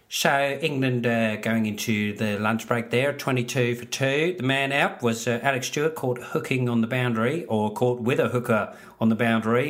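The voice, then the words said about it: Poor Richie Benaud impression. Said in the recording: “my shitty Richie Benaud impression”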